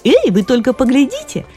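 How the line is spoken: Shouting. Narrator (Russian): закричала Джоан Челлон, лучшая прыгунья

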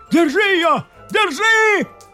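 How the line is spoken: Shout. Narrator (Russian): крикнул лорд своему советнику

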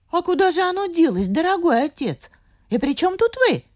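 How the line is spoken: Exclaimed together. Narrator (Russian): воскликнули дочери

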